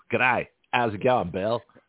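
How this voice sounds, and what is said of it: Poor put-on Australian accent. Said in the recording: “Sorry, not a good accent. ... No, that was pretty bad. ... That was really, really horribly bad ... an Australian accent”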